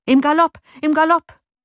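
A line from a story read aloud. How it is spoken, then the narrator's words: Calling out. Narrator (German): rief Johann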